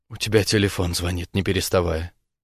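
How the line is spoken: Quiet. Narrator (Russian): проговаривает негромко

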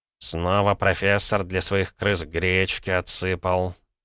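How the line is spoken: Displeased grumble. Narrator (Russian): недовольно проворчал хранитель

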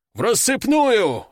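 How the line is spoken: Barked command. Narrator (Russian): рыкнул Буйвол

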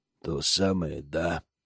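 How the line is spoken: Gloomy, grim. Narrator (Russian): мрачно произнес Зак

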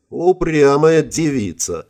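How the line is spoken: Giggling. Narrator (Russian): в ПКМ хихикнула Иришка

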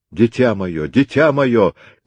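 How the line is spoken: Grief-crazed father screaming. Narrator (Russian): кричал обезумевший от горя отец

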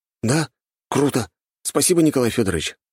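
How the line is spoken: Joyful, relieved. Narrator (Russian): радостно сказал я, обрадовавшись тому, что больше не придется здесь торчать

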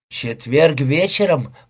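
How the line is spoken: Mutter. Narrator (Russian): пробормотал он

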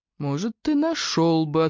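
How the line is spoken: Unctuous tone. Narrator (Russian): ответил он все тем же елейным тоном

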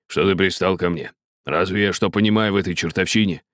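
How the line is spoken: Snapping back. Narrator (Russian): огрызнулся Райт

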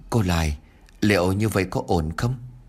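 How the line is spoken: Hesitant stammering. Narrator (Vietnamese): bà Thoa liền ấp úng

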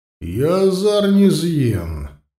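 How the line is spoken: Thunderous booming voice. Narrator (Russian): громовым голосом, раскатившимся над притихшим полем, ответил слепец

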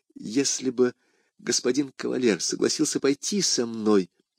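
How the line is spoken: Timid. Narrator (Russian): робко сказала Кэти

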